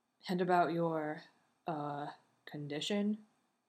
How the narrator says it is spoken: Sam grunts

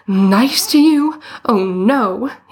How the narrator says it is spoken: he exclaimed

